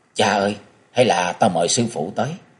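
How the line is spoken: Soft call. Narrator (Vietnamese): Bình Nhạn Du khẽ kêu lên

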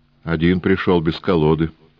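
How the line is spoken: Calm remark. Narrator (Russian): спокойно заметил господин Неймлис

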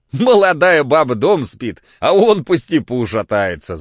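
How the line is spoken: Laughing. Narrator (Russian): засмеялся Кирюха

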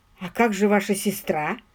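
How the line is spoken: Muttered. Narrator (Russian): пробормотал он

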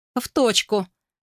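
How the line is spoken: Laughing. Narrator (Russian): рассмеялся

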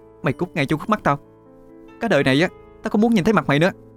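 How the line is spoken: Angry shout. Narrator (Vietnamese): quát

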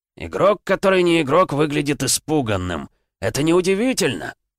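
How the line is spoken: Monstrous growl. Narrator (Russian): прорычал монстр

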